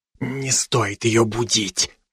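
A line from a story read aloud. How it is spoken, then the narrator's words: Whisper, doctor. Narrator (Russian): прошептал мне доктор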